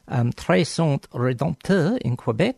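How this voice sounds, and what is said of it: Deliberately bad French accent. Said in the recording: “in my best bad French accent”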